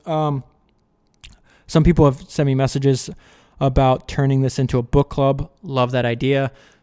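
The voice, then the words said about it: Tired, fading voice. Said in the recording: “I'm losing my voice.”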